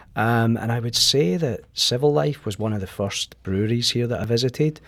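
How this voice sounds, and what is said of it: Scottish accent. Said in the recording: “you can maybe tell by my accent that I'm not originally from St. Louis. I come from Scotland”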